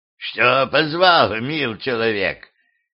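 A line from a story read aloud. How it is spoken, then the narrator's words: Old woman rasping. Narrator (Russian): прохрипела старуха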